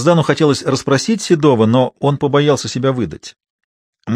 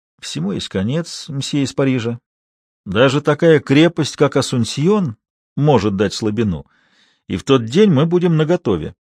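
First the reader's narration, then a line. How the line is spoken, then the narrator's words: Barely audible man. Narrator (Russian): Мужчина чуть слышно проговорил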